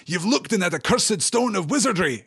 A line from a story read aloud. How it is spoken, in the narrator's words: exclaimed Gimli with fear and astonishment in his face